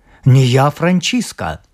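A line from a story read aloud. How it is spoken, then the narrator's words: Young man exclaiming. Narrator (Russian): Молодой король воскликнул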